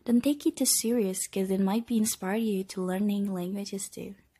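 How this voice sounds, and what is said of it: Non-native English accent. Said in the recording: “This podcast also contains weird accent, kinda, mispronunciation”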